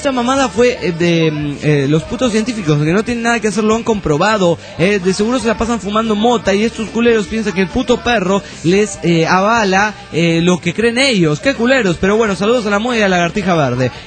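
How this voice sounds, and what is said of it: Mexican norteño accent. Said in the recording (Spanish): “Me hace como un norteño mexicano.”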